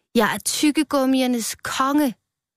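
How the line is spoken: Shouting. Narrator (Danish): sagde Rød og råbte

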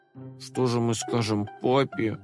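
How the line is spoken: Whimpering. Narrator (Russian): захныкал Компот

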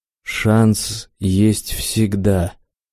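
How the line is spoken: Strained, forced out. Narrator (Russian): выдавил он из себя

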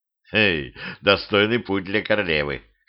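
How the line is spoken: Snorted. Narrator (Russian): хмыкнул Петрович

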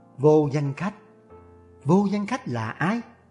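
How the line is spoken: Muttered to herself. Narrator (Vietnamese): Giao Đoan tiên tử lẩm bẩm

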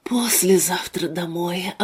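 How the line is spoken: Relieved sigh. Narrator (Russian): облегченно вздохнул Руслан

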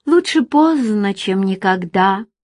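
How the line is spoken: Sad wry laugh. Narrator (Russian): грустно усмехнулась женщина

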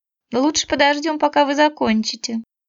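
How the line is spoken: Mother-in-law sighing. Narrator (Russian): вздохнула свекровь

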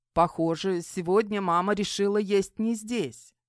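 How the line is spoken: Snorting. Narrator (Russian): хмыкнул Мик

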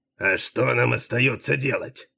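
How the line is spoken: Irritated. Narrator (Russian): раздраженно отозвался Делуло

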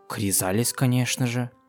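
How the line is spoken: Quiet reply. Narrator (Russian): тихонько ответила Флёр

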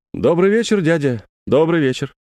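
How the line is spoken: Cheerful, pleased voice. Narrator (Russian): Это было сказано веселым и довольным голосом

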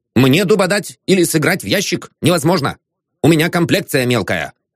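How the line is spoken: Stern. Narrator (Russian): строго добавил

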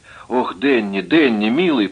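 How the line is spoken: Moaning. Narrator (Russian): простонала

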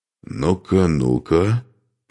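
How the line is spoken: Grumbling. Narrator (Russian): проворчал он

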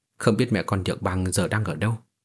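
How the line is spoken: Pensive mutter. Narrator (Vietnamese): Lý Vân Tiêu trầm tư một lúc, lẩm bẩm

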